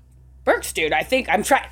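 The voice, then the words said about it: Imitates another person's voice. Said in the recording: “my Julian impression”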